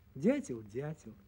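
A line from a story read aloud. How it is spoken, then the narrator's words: Sighing. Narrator (Russian): вздохнула ветка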